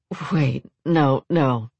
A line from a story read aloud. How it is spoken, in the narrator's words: laughed her vulnerable partner